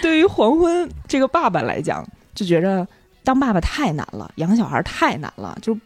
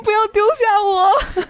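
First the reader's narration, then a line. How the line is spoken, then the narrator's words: Crying. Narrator (Chinese): 安妮亚当场就哭了，说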